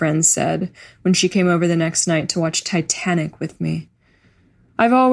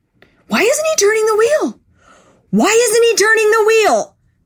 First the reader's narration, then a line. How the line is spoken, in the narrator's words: screamed